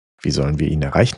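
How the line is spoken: Plain question. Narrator (German): fragte Fidala

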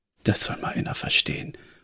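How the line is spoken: Muttering to himself. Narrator (German): murmelte Jonah, vermutlich mehr zu sich selbst

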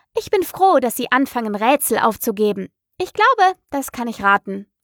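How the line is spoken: Continued loudly. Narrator (German): fuhr sie laut fort

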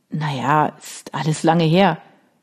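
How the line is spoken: Creaky-voiced reply. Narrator (German): Vincent mit knarrender Stimme erwiderte

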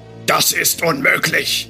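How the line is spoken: Thundering loud male voice. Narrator (German): donnerte wieder die laute Männerstimme, die wohl dem obersten Wichtigtuer der Drachengilde, oder wie sich die Typen auch nannten, gehörte

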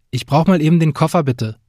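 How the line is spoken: Firm, loud. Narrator (German): sagte ich bestimmt und so laut, dass Jasmin es hören konnte

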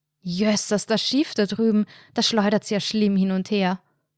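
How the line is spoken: Loud bellowing. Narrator (German): brüllte Anna, um sicherzustellen, dass Markus ihre Worte diesmal hören konnte

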